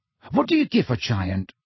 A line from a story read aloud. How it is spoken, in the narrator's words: asked Ron eagerly